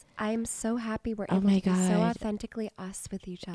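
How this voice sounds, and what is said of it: Husky voice. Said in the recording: “end the episode in our huskier voices ... my voice is kind of husky right now”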